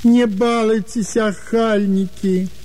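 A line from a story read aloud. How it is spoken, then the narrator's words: Old man pleading plaintively. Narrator (Russian): жалобно просил старик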